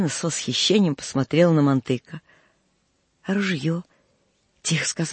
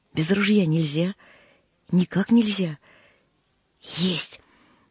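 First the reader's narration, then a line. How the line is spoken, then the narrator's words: Conspiratorial whisper. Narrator (Russian): прошептал с видом заговорщика Мантык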